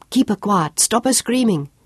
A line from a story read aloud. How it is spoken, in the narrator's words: Sean called urgently